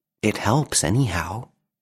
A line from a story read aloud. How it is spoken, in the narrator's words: whispered the little man to himself